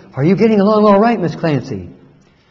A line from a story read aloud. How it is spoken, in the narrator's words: to whisper in her ear